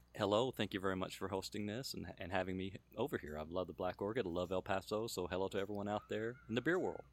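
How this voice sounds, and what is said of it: Smooth radio announcer voice. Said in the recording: “you do have a radio voice”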